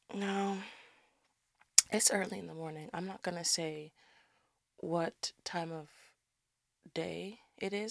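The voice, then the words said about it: Tired-sounding voice. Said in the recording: “You sound tired. ... I am tired.”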